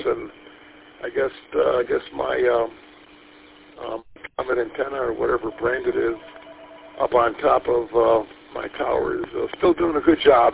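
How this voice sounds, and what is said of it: Slightly raspy voice. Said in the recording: “my voice is a little bit raspy. ... Just got up an hour ago, and my voice cords ain't been stretched yet.”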